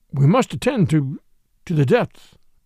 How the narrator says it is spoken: his voice escaped from articulation

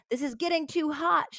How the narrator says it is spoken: shouted the leader, the two-gunned bandit, who was found later to be named Henry Helms

